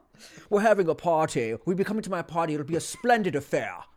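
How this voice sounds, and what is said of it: Put-on transatlantic accent. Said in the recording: “Oh, transatlantic accents.”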